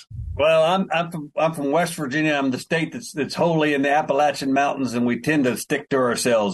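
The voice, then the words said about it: Strong Appalachian West Virginia accent. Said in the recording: “I apologize for my accent. ... it gets worse as I talk. ... I was born with it. I can't correct it.”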